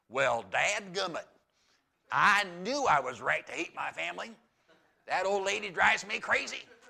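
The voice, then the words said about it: Put-on Southern accent. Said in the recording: “why did I start talking with a southern accent?”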